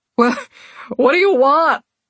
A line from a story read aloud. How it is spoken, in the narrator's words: Ash wailed